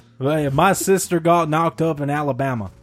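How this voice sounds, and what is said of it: Put-on Alabama Southern accent. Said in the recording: “I don't know why I have the accent. She's from Alabama.”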